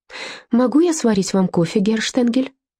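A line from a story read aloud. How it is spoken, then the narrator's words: Brisk, cheerful offer. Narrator (Russian): бодро предложила Эдельтраут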